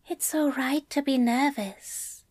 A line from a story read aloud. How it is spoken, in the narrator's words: Aziraphale whispered reassuringly